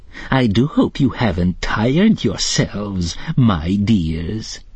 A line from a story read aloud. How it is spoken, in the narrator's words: said the old woman in a nasty, sneering voice